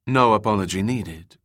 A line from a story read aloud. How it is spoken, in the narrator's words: Corinna said